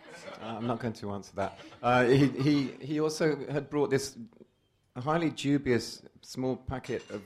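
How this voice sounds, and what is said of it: Slightly strained, weird-sounding voice. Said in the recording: “My voice is a bit weird tonight ... forced me to drink vodka last night until 3:20 in the morning”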